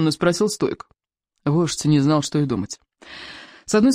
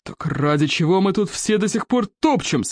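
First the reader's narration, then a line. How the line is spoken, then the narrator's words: Roared. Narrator (Russian): взревел стойк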